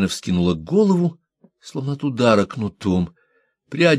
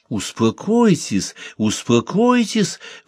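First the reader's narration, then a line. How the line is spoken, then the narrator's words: Cooing. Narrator (Russian): ворковала Микки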